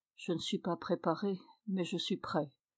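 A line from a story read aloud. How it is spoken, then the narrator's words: Weak voice. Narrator (French): Je lui ai répondu d'une voix faible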